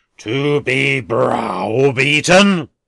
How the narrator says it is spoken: returned the philanthropist, raising his voice to a roar

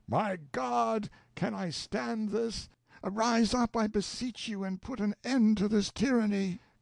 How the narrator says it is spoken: Elfonzo called out with a loud voice

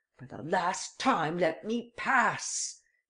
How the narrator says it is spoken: he cried

